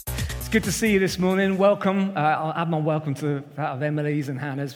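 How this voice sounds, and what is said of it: Southern English accent. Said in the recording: “still sound like a southerner ... I'm trying my hardest to incorporate little bits of northern lingo ... but it's a losing battle, really, after 20 years on the south coast”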